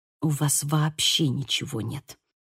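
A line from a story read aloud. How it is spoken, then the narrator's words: Hissing. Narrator (Russian): прошипела я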